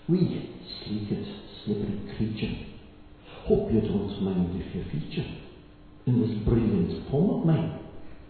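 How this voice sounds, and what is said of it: Put-on Scottish accent. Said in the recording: “my best Scottish accent with respect to Robbie Burns”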